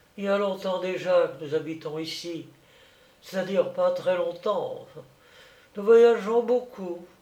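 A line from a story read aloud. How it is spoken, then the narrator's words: Timid, flat voice. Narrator (French): me répondit-elle d'une voix timide, sans intonation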